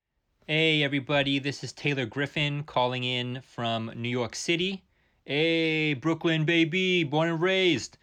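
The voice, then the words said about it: Put-on New York accent. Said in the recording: “You can tell I'm from New York because of my authentic New York accent. ... So actually, none of that is true”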